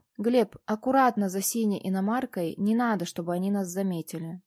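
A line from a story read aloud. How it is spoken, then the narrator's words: Calm command. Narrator (Russian): спокойно скомандовала я водителю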